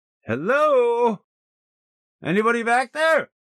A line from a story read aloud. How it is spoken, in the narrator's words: hollered